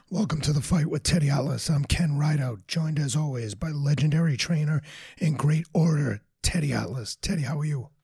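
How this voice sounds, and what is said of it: Hoarse, nearly lost voice. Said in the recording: “I can't hear you. Speak loud. ... Your voice. ... I lost my voice, but much like the great Joe Tessitore fighting through illness”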